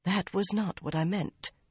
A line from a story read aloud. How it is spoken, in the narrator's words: Elaine muttered